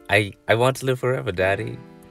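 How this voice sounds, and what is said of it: Puts on an accent. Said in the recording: “I don't know why I did that accent.”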